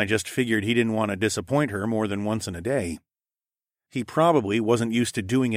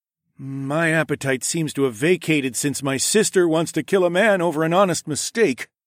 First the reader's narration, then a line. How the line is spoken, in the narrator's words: Sawadi grumbled with a dramatic sigh